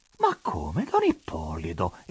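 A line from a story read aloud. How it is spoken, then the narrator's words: Astonished, grieved exclamation. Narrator (Italian): esclamò con stupore e afflizione monsignore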